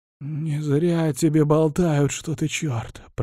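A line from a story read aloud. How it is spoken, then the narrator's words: Hoarse wheeze. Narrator (Russian): прохрипел он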